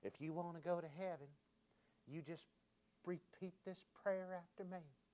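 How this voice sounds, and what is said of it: Imitated Texas accent, preacher voice. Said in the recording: “he's got that beautiful Texas accent.”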